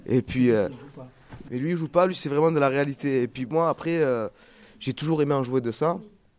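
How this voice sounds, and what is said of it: Marseille French accent. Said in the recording (French): “d'avoir cet accent marseillais”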